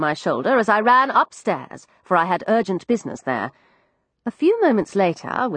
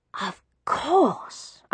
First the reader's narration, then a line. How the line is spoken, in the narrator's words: I whispered as the answer dawned on me